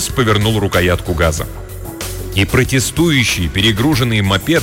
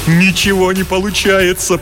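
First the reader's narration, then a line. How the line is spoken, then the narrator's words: Moaning. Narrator (Russian): простонал Лукас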